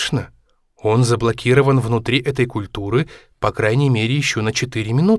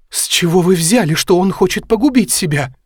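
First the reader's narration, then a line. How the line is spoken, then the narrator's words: Sobbing. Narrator (Russian): всхлипнула Мэри Энн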